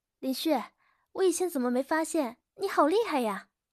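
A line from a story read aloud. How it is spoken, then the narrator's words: Sweet, smiling. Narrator (Chinese): 笑容甜美的顾瑶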